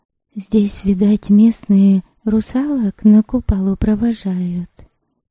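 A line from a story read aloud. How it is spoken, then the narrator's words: Whisper. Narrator (Russian): шепнула она Ольгице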